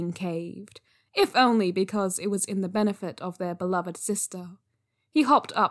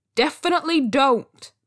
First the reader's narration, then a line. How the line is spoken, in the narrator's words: Zhang Cheng shouted